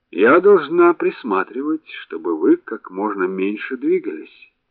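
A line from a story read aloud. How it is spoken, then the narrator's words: Gentle, smiling nurse. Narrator (Russian): ласково улыбнулась сестра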